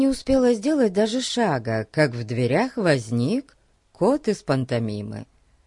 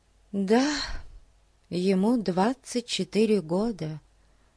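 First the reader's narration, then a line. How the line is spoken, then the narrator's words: Sad confirmation. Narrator (Russian): грустно подтвердила Зоя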